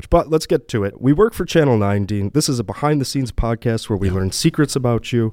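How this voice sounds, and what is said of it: Raspy voice, sounds like a cold. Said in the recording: “his voice doesn't sound ... adequate ... You sound like you have a cold. ... a little raspy this week”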